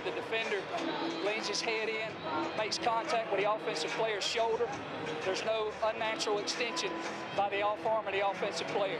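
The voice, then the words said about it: Slight Southern American accent. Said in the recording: “a little southern accent”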